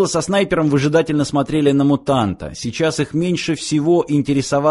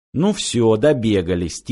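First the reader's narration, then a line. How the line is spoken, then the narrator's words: Quiet. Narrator (Russian): тихо произнес снайпер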